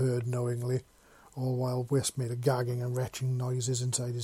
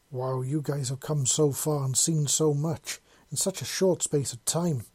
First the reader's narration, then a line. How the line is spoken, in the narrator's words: Malachi exclaimed